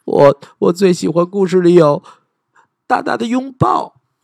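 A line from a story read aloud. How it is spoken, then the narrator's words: Smiling. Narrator (Chinese): 狼爸爸笑着说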